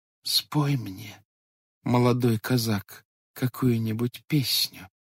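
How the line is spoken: Quiet. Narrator (Russian): тихо молвила она

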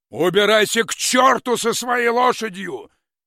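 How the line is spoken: Shouting after someone. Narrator (Russian): закричал он ему вслед

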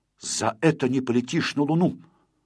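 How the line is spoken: Angry. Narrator (Russian): Знайка, сердито сверкнув на Незнайку глазами, сказал

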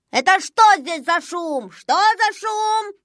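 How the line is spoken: Shouting. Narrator (Russian): закричал он

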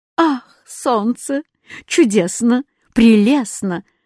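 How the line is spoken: Joyful exclaiming. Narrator (Russian): радостно выкрикивал восклицательный знак

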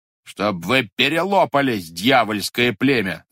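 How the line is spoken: Old man shouting. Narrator (Russian): закричал дед

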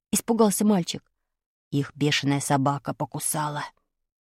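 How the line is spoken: Whisper. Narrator (Russian): прошептал Ромка

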